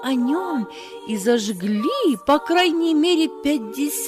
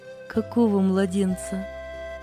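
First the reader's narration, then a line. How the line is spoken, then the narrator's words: Asked again gently. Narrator (Russian): мягко переспросила сестра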